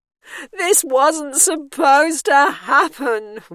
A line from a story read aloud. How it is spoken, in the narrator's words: wails